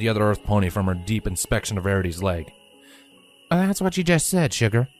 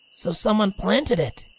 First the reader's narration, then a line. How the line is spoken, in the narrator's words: Rainbow growled